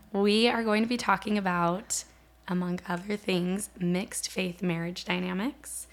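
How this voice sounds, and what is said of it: Hoarse, nearly lost voice. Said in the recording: “I've pretty much lost my voice ... losing my voice”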